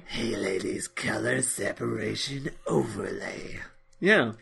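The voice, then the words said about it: Put-on sexy voice. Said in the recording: “That's your sexy voice. ... That's when you imagine someone speaking sexily.”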